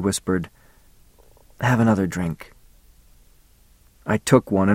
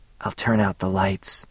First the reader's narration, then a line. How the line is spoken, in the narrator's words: she whispered